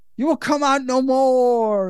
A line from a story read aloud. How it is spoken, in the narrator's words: shouts